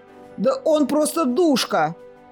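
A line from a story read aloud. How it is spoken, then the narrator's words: Shouted out. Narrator (Russian): выкрикнул Кир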